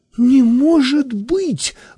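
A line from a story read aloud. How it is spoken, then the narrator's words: Exclaiming. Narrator (Russian): воскликнула я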